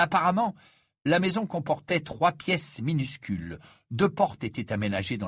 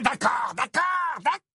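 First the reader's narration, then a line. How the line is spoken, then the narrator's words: Roared. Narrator (French): rugit Gaunt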